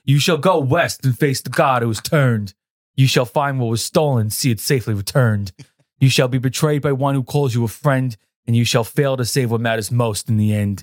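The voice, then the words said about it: Heavy put-on New York accent. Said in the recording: “I could do that heavy New York accent he was doing”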